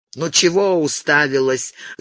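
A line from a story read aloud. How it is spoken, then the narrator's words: Grumble. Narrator (Russian): заворчал он на перепуганную девочку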